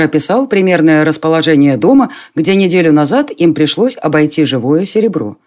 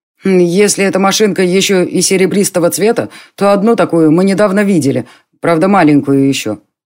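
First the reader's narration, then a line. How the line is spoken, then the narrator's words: Plain. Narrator (Russian): сказал Конор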